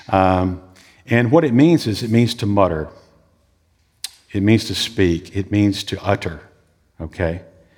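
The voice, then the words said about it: Southern American drawl. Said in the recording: “my southern drawl English”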